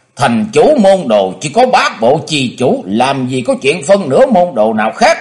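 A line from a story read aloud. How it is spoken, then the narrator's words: Shouting. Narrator (Vietnamese): Dạng Thắng quát lên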